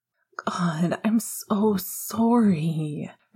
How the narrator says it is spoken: Remus groaned

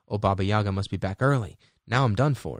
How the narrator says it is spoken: she exclaimed

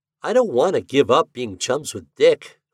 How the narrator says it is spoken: grumbled

